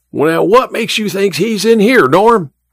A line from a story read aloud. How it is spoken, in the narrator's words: Emma's father yelled again